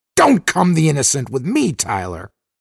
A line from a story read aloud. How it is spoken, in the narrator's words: Dixon snapped, slightly shrill